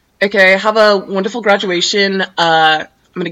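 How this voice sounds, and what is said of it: Put-on Australian accent. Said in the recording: “I was thinking about doing an Australian accent”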